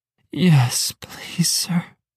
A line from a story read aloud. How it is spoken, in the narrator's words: she moaned